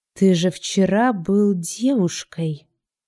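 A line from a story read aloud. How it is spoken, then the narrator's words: Quiet, into the ear. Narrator (Russian): тихо сказал на ухо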